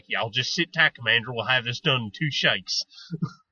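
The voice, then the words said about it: Put-on cowboy accent. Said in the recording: “your little cowboy accent sounds vaguely like Nathan Fillion in Firefly”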